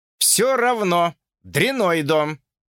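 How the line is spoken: Snapping retort. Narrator (Russian): огрызнулся Джордж

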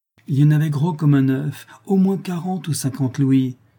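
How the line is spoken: Greedy excited exclamation. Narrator (French): s'écria Calebasse, les yeux brillants de convoitise

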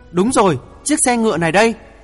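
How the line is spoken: Sudden loud exclamation. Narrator (Vietnamese): Chàng buột miệng hét lớn

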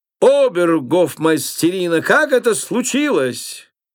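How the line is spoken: Loud angry shout. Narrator (Russian): король, пылая гневом, громко крикнул

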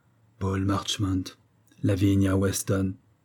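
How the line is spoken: Murmur. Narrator (French): murmura-t-elle

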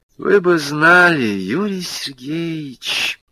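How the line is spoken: Sad voice. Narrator (Russian): печально произнесла она

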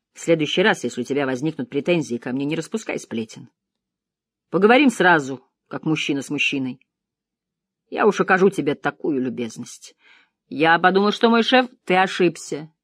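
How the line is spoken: Rude interruption. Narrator (Russian): грубо оборвал его Кассиди

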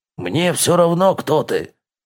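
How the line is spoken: Snapping. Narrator (Russian): Огрызнулся Хьорн

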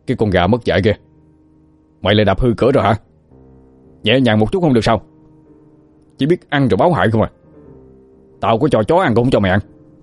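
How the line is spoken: Angry shouting. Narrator (Vietnamese): Khá quát lên

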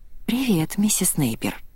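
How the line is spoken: Nervous whisper. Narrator (Russian): прошептала она, а сердце бешено забилось в грудной клетке

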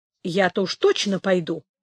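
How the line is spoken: Calm reply. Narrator (Russian): спокойно ответил Пятик

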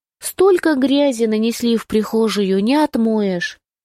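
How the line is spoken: Sighing. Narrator (Russian): вздохнула

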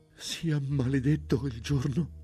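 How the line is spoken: Sobbing stammer. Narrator (Italian): balbettò Matilde in un accesso di singhiozzi

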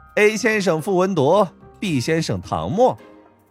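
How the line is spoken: Giggling. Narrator (Chinese): 白若瑶嘻嘻一笑

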